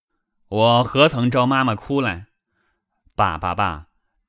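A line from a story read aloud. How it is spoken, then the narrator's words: Laughing after tears. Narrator (Chinese): 薛蟠听说，忙收了泪，笑道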